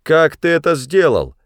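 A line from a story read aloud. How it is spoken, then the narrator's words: Shouted. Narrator (Russian): крикнул он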